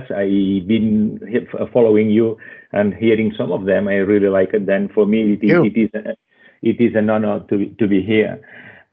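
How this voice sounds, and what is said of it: Spanish accent. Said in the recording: “with my accent, people will already realize that uh, that I am Spanish.”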